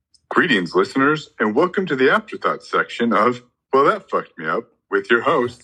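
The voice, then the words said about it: Game show host voice. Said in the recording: “you sound like a game show host. It's so good.”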